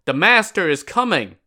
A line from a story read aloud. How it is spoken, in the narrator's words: someone yelled